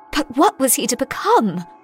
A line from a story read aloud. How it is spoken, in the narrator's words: I gasped, my mind reeling with disgust